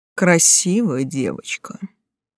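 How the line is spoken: Nasty hoarse voice. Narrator (Russian): противным хриплым голосом заключил он

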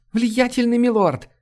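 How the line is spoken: Breathless tearful exclamation. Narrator (Russian): воскликнула запыхавшаяся женщина, обливая слезами

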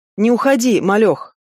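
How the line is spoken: Husky man, criminal slang intonation. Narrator (Russian): Голос мужчины, приближающегося ко мне, был хрипловатым, с очень характерными блатными интонациями

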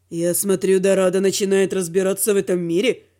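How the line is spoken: Snide dragon question. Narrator (Russian): Ехидно спросил дракон

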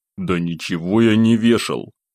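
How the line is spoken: Frowning grumble. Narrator (Russian): нахмурившись, проворчал я

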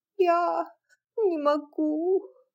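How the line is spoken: Barely audible babble. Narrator (Russian): еле слышно пролепетала тетушка Петтипет

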